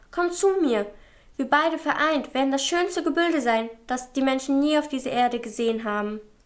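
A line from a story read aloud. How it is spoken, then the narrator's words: Called out. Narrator (German): rief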